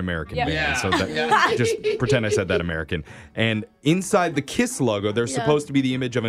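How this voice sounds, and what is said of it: Usual voice. Nothing is said of it.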